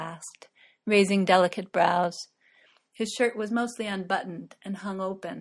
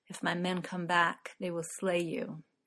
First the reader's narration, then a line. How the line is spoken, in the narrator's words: Faramir murmured